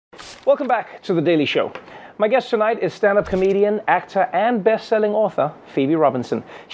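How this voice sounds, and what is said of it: Speaks with a noticeable accent. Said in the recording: “way more impressive through your accent ... even if it's not in my accent”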